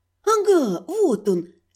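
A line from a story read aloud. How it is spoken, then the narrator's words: Joyful squeak. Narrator (Russian): Радостно пискнув, я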